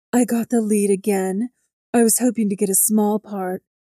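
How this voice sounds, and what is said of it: Ridiculously low-pitched character voice. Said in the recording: “in her ridiculously low voice.”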